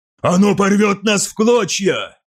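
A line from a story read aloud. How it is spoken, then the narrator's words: Shouted. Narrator (Russian): выкрикнул Фальк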